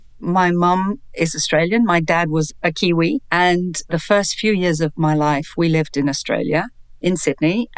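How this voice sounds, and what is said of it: British accent. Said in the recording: “you're not American, I can tell, with a British accent, similar to my mother's”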